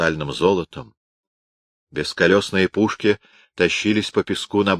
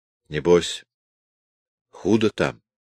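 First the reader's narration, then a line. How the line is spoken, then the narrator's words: Timid question. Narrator (Russian): робко спросил Калушкин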